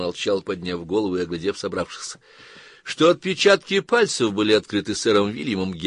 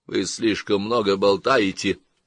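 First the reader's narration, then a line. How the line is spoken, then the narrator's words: Menacing grumble. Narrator (Russian): пробурчал Фарнли, угрожающе надувшись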